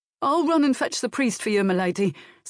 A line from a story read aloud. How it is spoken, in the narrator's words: said the guilt-stricken groom eagerly, anxious to be off